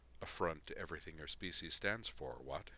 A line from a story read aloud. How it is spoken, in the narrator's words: said dryly